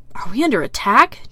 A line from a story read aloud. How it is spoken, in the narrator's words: Dean mutters faintly